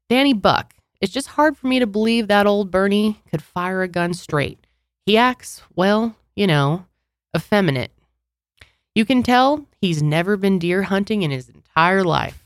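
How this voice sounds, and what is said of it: Put-on regional accent. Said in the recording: “Really am enjoying your guys' accents.”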